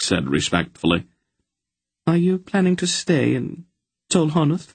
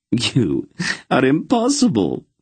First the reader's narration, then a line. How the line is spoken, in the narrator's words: she laughed